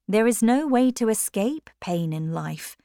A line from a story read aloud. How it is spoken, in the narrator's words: said Philip